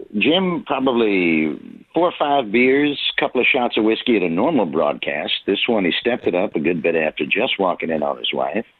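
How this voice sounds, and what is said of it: Generic baseball announcer voice. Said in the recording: “it's helpful to talk as Jim Brockmire, as ... I'm doing right now. This is the generic baseball announcer voice I grew up with in the 70s and 80s.”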